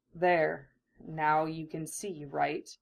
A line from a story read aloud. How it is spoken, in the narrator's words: Breathless, Hinata